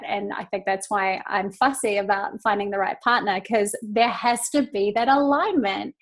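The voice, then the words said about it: New Zealand accent. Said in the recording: “in my Kiwi accent”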